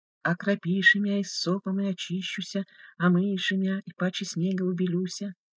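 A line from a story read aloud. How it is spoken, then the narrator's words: Stiff-tongued mumble. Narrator (Russian): Деревянным языком бормотал отец Гурий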